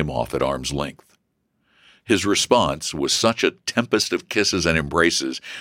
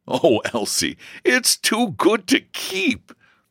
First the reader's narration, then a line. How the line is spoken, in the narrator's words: laughed George